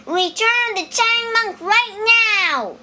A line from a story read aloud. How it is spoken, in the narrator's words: shouted Wukong